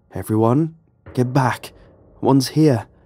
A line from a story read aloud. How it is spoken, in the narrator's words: I called out